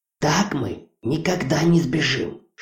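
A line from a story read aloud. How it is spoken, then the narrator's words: Whispered late at night. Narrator (Russian): шептала Хона поздней ночью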